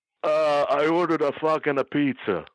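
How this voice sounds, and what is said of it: Bad impression of Bruno. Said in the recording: “your bad Bruno impression ... Bruno is difficult ... If you do Dennis doing Dino Sana, you'll get close to Bruno.”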